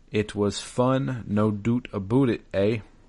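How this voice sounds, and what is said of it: Put-on Canadian accent, not very good. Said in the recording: “I don't know how good my Canadian accent is... I'm not good with a Canadian accent”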